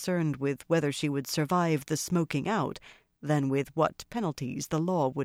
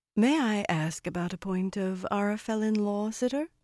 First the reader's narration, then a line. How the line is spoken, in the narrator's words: Meidani said, as smoothly as if that were what she had been intending to say all along